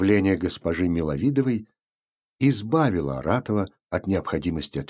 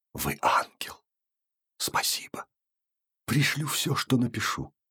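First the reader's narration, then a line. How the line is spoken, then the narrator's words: Whispered. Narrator (Russian): Он успел, однако, шепнуть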